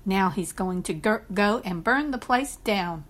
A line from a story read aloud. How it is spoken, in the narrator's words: her mother had snapped